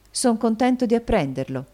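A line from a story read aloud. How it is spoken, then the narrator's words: Plain. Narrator (Italian): disse Nicola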